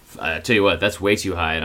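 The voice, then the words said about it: Exaggerated deep drawling voice. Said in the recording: “such a deep voice. ... like you're Sam Elliott”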